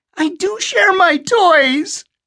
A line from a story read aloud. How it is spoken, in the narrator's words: little Eddie wailed, tears beginning to run